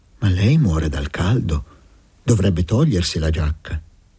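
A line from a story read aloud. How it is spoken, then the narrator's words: Maternal tone. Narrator (Italian): Anna Santa Silvia gli disse con tono materno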